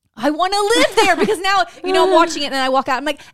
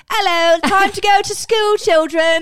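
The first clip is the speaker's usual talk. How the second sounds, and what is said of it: Put-on accent. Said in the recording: “I'm talking in my accent”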